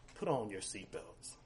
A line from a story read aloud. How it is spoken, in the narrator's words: he muttered